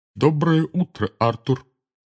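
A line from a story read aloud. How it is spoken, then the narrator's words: Grave, sepulchral voice. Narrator (Russian): сказал он за могильным голосом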